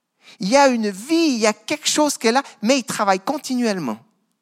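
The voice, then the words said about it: Non-Parisian regional French accent. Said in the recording (French): “quand je vais à Paris, on se moque un peu de mon accent”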